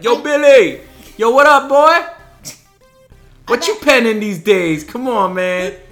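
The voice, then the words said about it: Put-on Brooklyn accent. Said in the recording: “get like Matt Brooklyn and be like”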